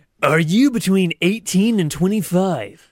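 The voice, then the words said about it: Announcer-style radio voice. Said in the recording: “put on my radio voice for this one ... I'm going to attempt a radio voice”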